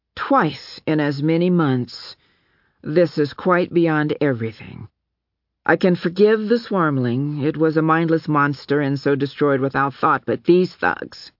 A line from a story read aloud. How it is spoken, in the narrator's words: his voice was level, almost conversational, as he said